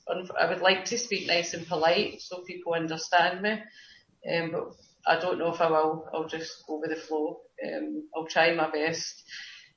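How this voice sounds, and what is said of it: Rough Paisley Scottish accent. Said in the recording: “my Paisley, proud to be Paisley accent. I'm rough and ready ... I don't have many airs and graces attached to my voice”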